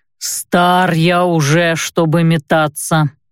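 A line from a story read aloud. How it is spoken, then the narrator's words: Grumbling reply. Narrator (Russian): проворчал в ответ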